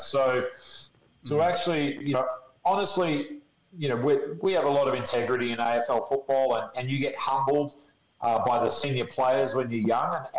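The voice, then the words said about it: Australian accent. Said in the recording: “man, you've got a weird accent. Where are you from? I said, Australia.”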